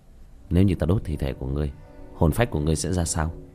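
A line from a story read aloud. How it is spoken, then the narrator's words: Muttering. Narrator (Vietnamese): lẩm bẩm một câu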